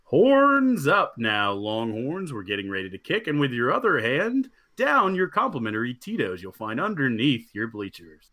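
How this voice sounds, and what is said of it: Stadium announcer voice. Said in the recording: “stadium voice”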